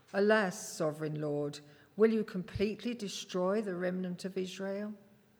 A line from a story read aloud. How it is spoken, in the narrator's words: cried out in a loud voice